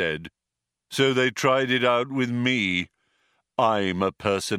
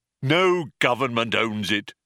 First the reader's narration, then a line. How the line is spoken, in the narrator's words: snapped the robot